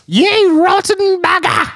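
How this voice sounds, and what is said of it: Old lady voice. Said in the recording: “Gotta do it in an old lady voice.”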